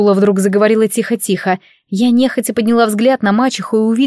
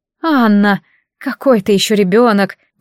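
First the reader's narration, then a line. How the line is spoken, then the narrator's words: Sigh. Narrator (Russian): вздохнула Урсула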